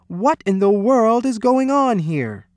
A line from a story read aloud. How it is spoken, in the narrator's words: cried